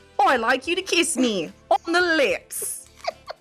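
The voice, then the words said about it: Mixed Cockney and Australian accent. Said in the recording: “There was some Cockney in there. There was some Australia, Cockney. It was good. It was solid.”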